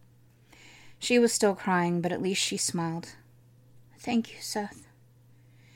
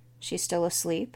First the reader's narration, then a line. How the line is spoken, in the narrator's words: Caden asked